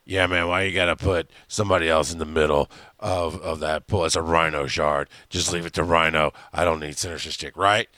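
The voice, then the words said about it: Imitates another person's voice. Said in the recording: “Here's Kurt's input for tonight. ... That's my current impression for tonight.”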